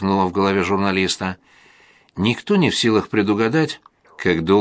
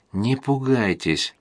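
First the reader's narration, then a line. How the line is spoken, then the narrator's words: Quiet beginning. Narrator (Russian): тихо начал он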